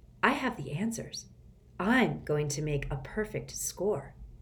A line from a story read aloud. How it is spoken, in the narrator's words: Rhonda whispered